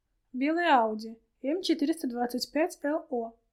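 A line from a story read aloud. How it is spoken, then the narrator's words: Blurted out. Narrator (Russian): выдала риэлторша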